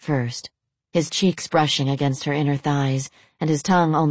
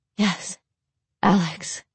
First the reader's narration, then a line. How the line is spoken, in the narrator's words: Lorelai breathed